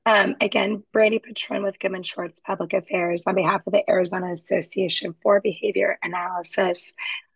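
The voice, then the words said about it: Rough, congested sick-sounding voice. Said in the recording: “apologize for my voice. I came back from vacation with a cold.”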